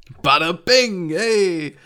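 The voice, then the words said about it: Exaggerated Brooklyn accent. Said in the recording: “an even more of a Brooklyn accent in the dub”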